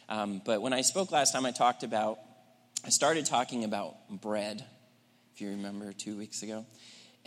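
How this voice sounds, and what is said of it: Raspy, strained voice. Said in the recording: “sorry about my throat. I'm a little bit raspy.”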